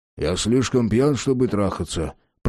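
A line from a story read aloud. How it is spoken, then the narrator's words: Grumbled. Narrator (Russian): проворчал Энтони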